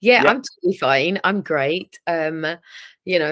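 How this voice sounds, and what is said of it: Usual voice. Nothing is said of it.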